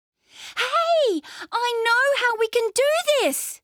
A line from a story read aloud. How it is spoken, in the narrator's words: she shouted